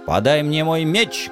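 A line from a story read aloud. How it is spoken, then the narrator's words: Menacing yell. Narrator (Russian): грозно завопил я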